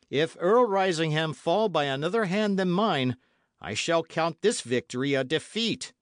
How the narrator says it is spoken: he added, raising his voice

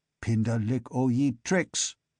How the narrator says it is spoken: the first speaker spat

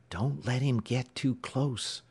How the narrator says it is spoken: whispered

